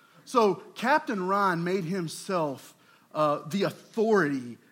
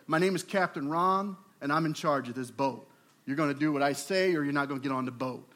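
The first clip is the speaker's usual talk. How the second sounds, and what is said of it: Deep voice of a big man. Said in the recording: “he's a big guy, deep voice”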